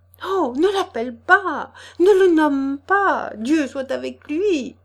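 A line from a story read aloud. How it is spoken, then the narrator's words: Trembling, frightened. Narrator (French): s'écria-t-elle en blêmissant et tremblotant des lèvres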